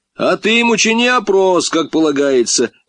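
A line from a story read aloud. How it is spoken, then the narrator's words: Shout from crowd. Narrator (Russian): выкрикнули из толпы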